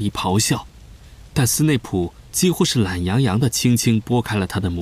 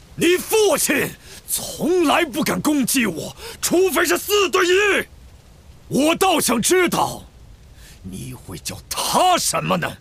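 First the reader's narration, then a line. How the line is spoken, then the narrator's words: Roared. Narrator (Chinese): 斯内普吼道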